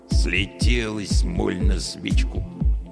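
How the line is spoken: Grumbling watchman. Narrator (Russian): проворчал сторож

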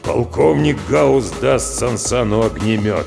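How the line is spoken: Gloomy deep bass. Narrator (Russian): пробасил Гаус хмуро

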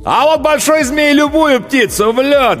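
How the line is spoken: Loudest shouting. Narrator (Russian): громче всех кричал ковбой

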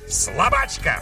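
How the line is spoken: Witch's harsh bark. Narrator (Russian): рявкнула ведьма

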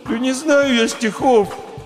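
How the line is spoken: Confused hamster whimpering. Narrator (Russian): захныкал в конец сбитый с толку хомяк

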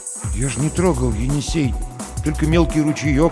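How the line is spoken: Mumbled. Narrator (Russian): промямлил Третьяков

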